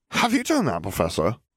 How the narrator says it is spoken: a Hufflepuff boy asked nervously

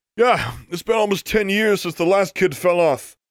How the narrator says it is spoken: called an 11th grader

